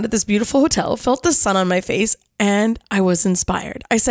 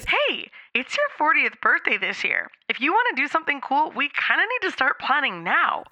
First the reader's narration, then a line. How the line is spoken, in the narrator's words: all of a sudden Elsa piped up with